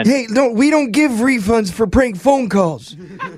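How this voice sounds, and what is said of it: Old man voice. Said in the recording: “old man voice”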